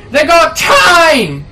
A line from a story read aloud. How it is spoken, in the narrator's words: one of the bandits out in the bushes yells